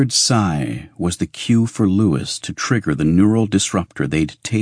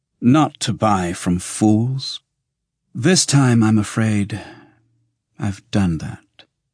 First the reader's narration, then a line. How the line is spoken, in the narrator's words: he said wearily